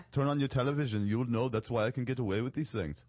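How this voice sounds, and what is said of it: Imitates another person's voice. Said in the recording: “I don't know why I have this accent now, but it seems appropriate ... That's supposed to be Arnold. ... It's a little bit of Arnold.”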